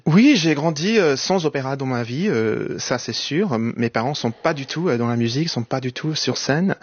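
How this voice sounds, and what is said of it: Fluent French, slight American accent. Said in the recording (French): “vous parlez parfaitement français, on entend une pointe d'accent américain”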